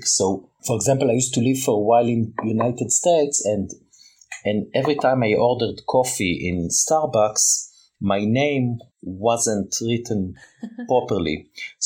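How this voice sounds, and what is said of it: Thick non-native English accent. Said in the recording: “my English is okay, but my accent is quite thick”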